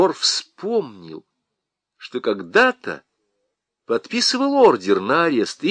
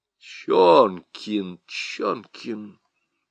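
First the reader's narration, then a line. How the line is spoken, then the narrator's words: Muttering prosecutor. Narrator (Russian): бормотал прокурор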